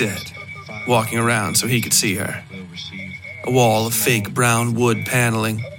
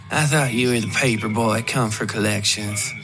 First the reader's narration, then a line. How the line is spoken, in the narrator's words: said with a sigh